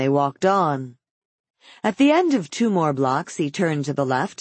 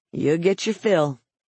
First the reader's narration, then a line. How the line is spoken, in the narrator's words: Head was dismayed, but he only muttered